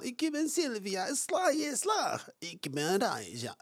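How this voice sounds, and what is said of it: Imitated Eastern European accent. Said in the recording (Dutch): “ik doe nu gewoon het accent zoals zij praten ... Oost-Europese dame”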